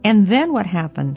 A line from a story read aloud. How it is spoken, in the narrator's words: asked Gladys eagerly